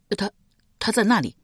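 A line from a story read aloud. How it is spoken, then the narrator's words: Stammering. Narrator (Chinese): 一名吏卒结结巴巴的说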